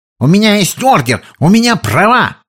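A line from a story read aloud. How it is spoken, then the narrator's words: Yelling. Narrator (Russian): заорал Беличер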